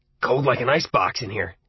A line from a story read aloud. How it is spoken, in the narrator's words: he grunted